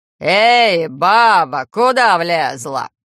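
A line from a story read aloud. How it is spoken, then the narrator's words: Growled. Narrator (Russian): рыкнул он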